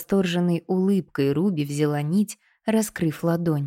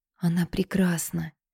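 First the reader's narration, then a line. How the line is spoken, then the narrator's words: Whispered. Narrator (Russian): прошептала Руби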